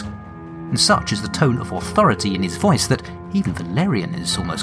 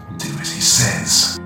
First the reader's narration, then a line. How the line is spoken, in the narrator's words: Trace whispers